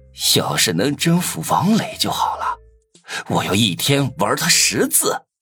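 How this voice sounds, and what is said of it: Quiet muttering voice. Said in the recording (Chinese): “我小声嘟囔着”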